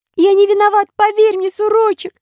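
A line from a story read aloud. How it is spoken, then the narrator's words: Babbling. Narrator (Russian): лепетал Пиноккио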